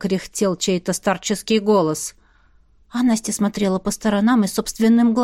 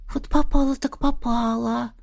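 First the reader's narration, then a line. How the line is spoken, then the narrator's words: Whisper. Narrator (Russian): прошептала она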